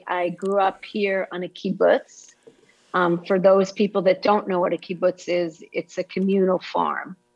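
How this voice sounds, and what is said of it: Slight Israeli accent. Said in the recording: “are you Israeli? ... I'm just picking up a slight accent. ... when I say Tel Aviv, you hear the accent. ... It's beautiful.”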